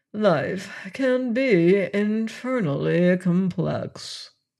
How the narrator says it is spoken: he sighed

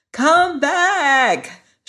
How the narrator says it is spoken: shouted the boy again

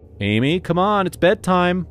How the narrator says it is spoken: I called out

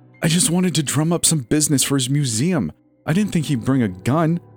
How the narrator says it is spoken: Nola whined

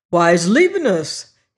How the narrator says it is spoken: he exclaimed

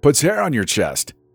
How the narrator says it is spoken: yelled, trying to be heard over the jarring music

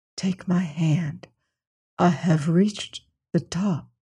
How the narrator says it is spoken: Very softly, he whispered back to Syme

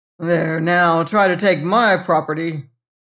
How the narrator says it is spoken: muttering

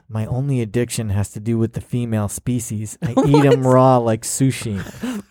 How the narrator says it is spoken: I heard him say under his breath

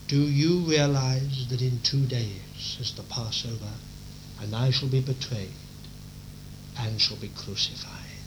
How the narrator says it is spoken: quietly and confidently, he turns to them and says

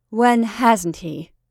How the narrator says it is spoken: said the woman bitterly

